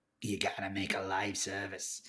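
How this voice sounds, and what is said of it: Little goblin-like character voice. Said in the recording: “did that voice ... It's my little money man goblin voice.”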